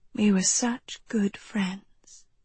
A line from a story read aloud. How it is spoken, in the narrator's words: the apparition whispered, its voice sibilant, the sound of an animal carcass being dragged across stone